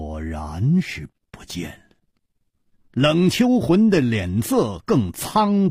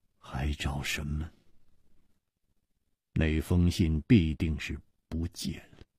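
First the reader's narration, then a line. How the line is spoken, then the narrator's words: Murmuring. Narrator (Chinese): 张啸林喃喃地说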